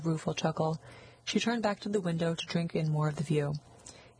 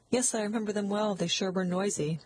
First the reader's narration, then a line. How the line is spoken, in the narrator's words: Catherine laughed a little nervously